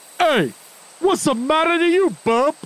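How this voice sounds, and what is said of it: Tough, gruff voice. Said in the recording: “in my toughest voice”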